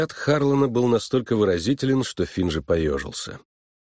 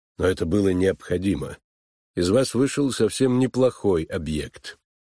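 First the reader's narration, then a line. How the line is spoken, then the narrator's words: Cold. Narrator (Russian): холодно сказал Финджи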